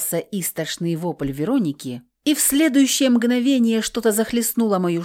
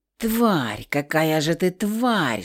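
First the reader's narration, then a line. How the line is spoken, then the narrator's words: Venomous hiss. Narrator (Russian): шипел ядовитой гадиной Зенски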